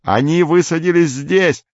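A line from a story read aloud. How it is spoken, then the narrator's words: Shout. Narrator (Russian): закричал Горбовский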